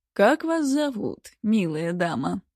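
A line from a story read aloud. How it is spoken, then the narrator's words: Purring. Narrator (Russian): продолжал мурлыкать он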